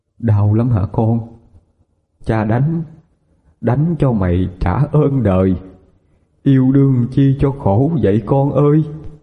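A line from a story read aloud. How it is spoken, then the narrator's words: Old man's trembling voice. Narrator (Vietnamese): Giọng ông run run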